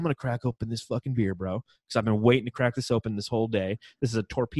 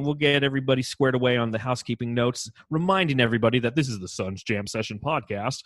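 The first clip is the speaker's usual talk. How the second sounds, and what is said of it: Announcer-style radio voice. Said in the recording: “I'm done talking in my radio voice.”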